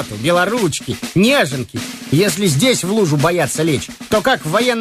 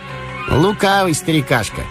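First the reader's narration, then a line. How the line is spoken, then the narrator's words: Plain. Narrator (Russian): сказал Веткин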